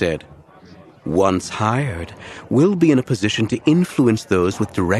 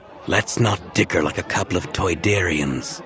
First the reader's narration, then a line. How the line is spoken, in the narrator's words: Squaw said in his dry, papery voice